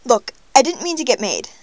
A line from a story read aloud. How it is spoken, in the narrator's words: Darcy blurts